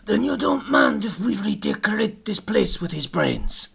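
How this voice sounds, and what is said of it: Godfather-style mobster accent. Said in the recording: “my sort of Godfather-esque accent ... Yeah, really good ... It's not Eastern European at all”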